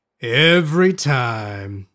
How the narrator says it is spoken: he said and sighed

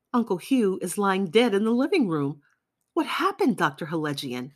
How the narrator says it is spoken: cried the young man

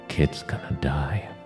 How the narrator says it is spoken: Bonin whispered to Miley

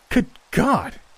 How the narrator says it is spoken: cried

